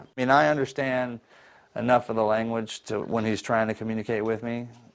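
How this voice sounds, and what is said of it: Southern American accent. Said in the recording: “You speak with a southern accent.”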